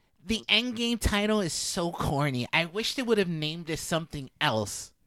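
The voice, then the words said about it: Pretentious nerd character voice. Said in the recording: “my pretentious nerd voice”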